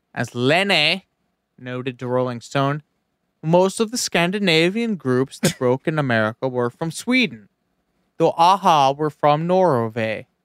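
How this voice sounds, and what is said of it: Caricatured put-on accent. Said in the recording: “I'm doing a caricatured accent to make fun of them”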